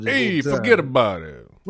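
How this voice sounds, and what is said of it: Mobster wise guy accent. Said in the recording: “talking like a wise guy”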